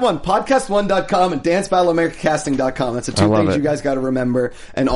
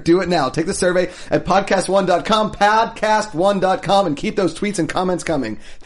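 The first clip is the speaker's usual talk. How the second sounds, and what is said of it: Rushed, very fast reading. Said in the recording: “That's the most disingenuous way. ... I'm going to just say this really fast because they're making me.”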